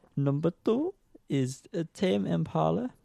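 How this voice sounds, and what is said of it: Put-on unidentified accent. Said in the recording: “I don't know what accent I'm going for.”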